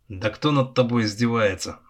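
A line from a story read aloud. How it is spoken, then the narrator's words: Snapping retort. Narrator (Russian): огрызнулся Влад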